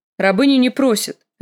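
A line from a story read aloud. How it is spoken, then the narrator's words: Sharp reply. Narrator (Russian): резко отвечала Мири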